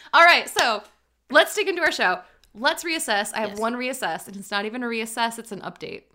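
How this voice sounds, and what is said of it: Talking really fast, animated. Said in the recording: “I'm talking really fast”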